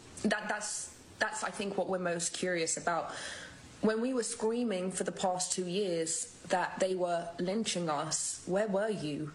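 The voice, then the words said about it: British accent. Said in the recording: “she was brought up in Britain ... That's where the accent comes from.”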